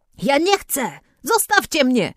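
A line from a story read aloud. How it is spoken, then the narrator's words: Screaming at full voice. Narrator (Polish): krzyczała na całe gardło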